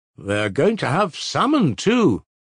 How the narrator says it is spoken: the boy who had discovered about Troy observed in a loud voice

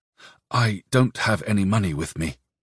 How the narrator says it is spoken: whispered

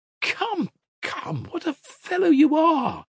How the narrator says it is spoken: cried Grushenka reproachfully

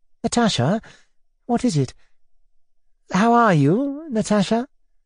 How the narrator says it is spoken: he brought out timidly, with a sort of dismay

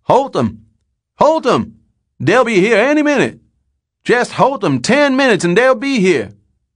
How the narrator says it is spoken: Running and stumbling along slow across the pasture, hollering

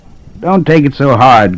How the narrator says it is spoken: laughed

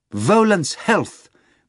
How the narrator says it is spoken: Margarita exclaimed

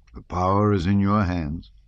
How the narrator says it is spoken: Dron rejoined sadly

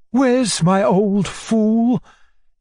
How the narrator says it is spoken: cried Maria Alexandrovna, bursting like a hurricane into the sitting-room

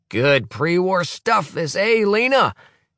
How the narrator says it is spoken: He roars jovially

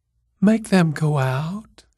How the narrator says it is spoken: whispered

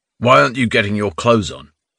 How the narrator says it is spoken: the guard asked gruffly

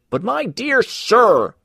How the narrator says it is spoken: cried Mr

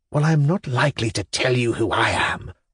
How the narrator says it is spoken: whispered the strange man

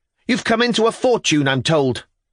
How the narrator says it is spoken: to shout

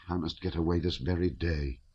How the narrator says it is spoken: he murmured to himself

